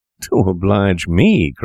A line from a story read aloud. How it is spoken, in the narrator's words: cried Wolfe